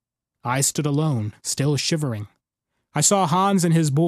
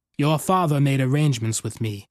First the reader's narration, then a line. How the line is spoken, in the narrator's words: Bohr said